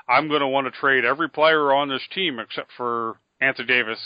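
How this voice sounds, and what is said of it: Bad Sam Hinkie impression. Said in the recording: “worst Sam Hinkie impression you'll ever hear ... Are you doing a Nixon impression?”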